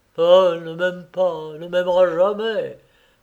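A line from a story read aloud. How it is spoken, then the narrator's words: Muffled, low voice. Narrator (French): fit-il d'une voix sourde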